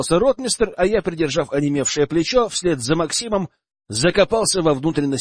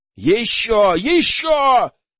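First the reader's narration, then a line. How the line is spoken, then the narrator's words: Shout. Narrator (Russian): кричал я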